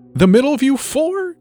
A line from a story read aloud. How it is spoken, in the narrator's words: the little girl squeaked